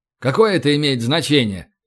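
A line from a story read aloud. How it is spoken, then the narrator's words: Irritated question. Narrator (Russian): раздраженно спросил Данченко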